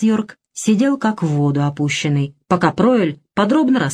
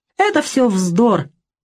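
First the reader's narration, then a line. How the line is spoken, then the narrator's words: Mocking. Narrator (Russian): насмешливо сказал Пройль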